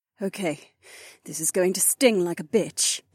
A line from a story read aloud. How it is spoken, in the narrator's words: the soldier warned